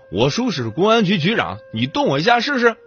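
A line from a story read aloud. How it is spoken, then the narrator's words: Threatening shout. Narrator (Chinese): 每次跟人动手前，他总大喊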